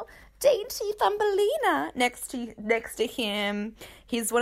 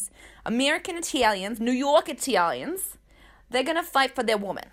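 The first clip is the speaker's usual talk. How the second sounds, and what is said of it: Put-on New York Italian accent. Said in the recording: “This accent is so good. I'm sorry. That's so bad.”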